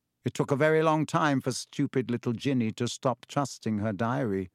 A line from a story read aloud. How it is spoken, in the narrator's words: said Riddle